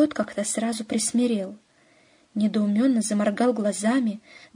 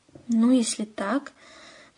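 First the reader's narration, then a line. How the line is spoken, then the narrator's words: Unsure mumble. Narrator (Russian): промямлил Остап, не ожидая такой прыти от своего, как ему казалось, преданного служаки, он никак не мог вернуть уверенный тон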